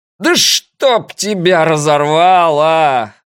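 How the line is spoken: Scout yelling. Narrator (Russian): орал разведчик

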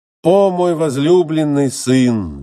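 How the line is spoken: Weeping exclamation. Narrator (Russian): воскликнула горько плача Фетида

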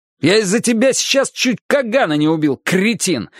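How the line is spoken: Yelling. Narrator (Russian): заорал я

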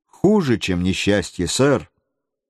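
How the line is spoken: Calm reply. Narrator (Russian): спокойно ответил

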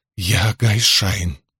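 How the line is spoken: Hoarse, muffled woman's voice. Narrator (Russian): прохрипела женщина, уткнувшись носом в ковры

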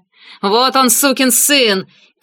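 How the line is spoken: Shout. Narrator (Russian): крикнул Монро

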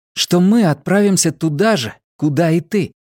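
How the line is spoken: Frightened breathless girl. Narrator (Russian): Девочка часто дышала, испуганно

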